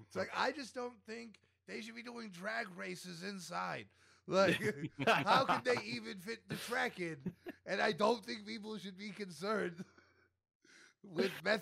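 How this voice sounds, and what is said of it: Put-on gruff Union Guy accent. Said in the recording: “That's the accent, that's the accent you have to go for right there ... That's the only accent I could do. I call it Union Guy ... It reminds me of SpongeBob”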